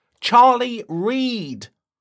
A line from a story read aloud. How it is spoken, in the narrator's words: shouted Justin